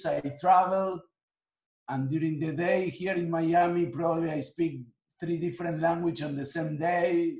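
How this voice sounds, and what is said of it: Mixed non-native English accent. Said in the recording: “my accent has a little bit of different languages ... my accent has a little bit of everything”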